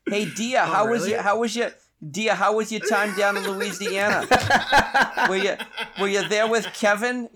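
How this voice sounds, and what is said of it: Thick Boston accent imitation. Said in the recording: “My mother has the thickest Boston accent.”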